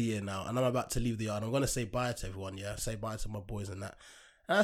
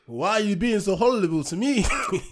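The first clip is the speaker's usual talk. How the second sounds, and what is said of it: Put-on Count Dracula Romanian accent. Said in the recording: “I'm trying to figure out what accent that was. ... It's just Count Dracula, isn't it? ... Romania”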